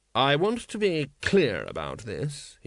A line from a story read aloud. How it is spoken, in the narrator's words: he said coldly